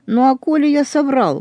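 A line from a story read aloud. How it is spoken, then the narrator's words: Involuntary exclamation. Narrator (Russian): воскликнул невольно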